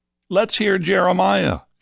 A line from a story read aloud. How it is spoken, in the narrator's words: shouted a chorus of voices from the crowd